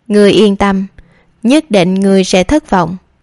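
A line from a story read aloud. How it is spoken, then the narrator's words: Cold, hushed. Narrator (Vietnamese): Bách Lý Thần Hy cũng dùng giọng điệu lạnh lùng nói mà chỉ hai người có thể nghe thấy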